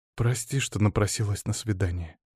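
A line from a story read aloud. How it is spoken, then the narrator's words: Quiet speech. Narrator (Russian): тихо проговорила графиня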